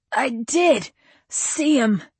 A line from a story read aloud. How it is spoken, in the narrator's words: cried Joe